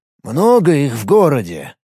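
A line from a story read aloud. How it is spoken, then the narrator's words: Plain. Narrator (Russian): спросил Рифат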